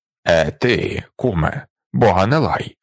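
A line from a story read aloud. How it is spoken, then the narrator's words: Stern, male. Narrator (Ukrainian): сказав він суворо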